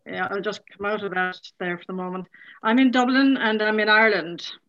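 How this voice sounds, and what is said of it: Irish accent. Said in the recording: “I love your accent.”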